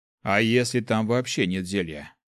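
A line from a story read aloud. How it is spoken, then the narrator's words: Sighing. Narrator (Russian): вздохнул клирик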